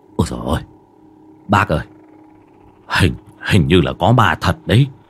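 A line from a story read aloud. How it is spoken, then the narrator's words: Frightened stammering. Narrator (Vietnamese): ông tài xế mặt trắng bệnh bạch, lắp bắp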